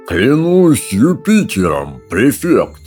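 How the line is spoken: Fat man drawling. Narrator (Russian): протянул толстый

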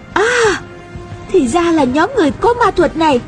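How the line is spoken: Exclaiming. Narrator (Vietnamese): Nhược Khắc Lâm kêu lên

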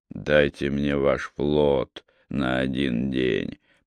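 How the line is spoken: Muttered. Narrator (Russian): пробормотал русский

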